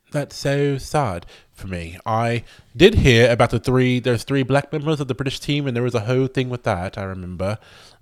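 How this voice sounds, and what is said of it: Put-on accent, fading. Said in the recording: “Don't know how long this accent's going to last. I feel it waning quite quickly.”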